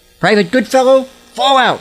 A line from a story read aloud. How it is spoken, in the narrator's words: he barked